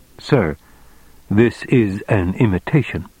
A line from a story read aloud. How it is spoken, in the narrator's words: he said calmly